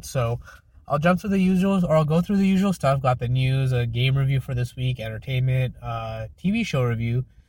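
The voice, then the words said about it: Slightly sick-sounding voice. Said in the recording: “I'm feeling a little bit under the weather. I'm not sure if you can tell in my voice or not.”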